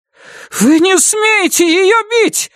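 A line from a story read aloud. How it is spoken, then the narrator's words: Shout. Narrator (Russian): закричала Дженни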